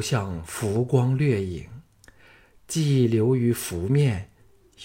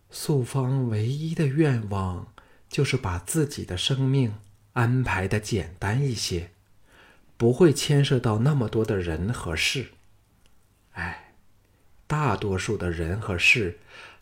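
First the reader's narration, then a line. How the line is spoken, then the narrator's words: Soft, dreamy voice. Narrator (Chinese): 石素芳像现在为自己编造的却不能自拔的梦境中一般，柔声说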